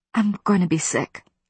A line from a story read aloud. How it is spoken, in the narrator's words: I whispered